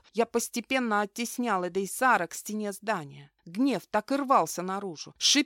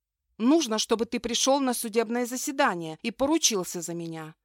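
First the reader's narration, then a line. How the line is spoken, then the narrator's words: Sharp, abrupt. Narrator (Russian): выдала резко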